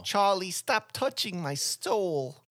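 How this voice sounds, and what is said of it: Brooklyn New York grandma voice. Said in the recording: “New York accent you give them ... It's like a Brooklyn. ... Franz Drescher kinda.”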